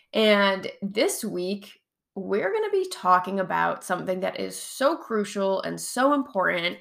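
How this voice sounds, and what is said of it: Hoarse voice. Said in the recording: “my voice all sounds hoarse, and I'll probably cough and drink more water because I am recovering from a bout of COVID”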